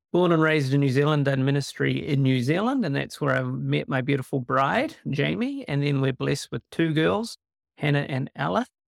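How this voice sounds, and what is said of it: New Zealand accent. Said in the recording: “born and raised in New Zealand, which is hence a bit of an accent”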